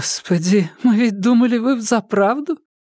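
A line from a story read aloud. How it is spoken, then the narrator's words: Breathless woman. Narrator (Russian): Выдохнула женщина в цветастом шарфе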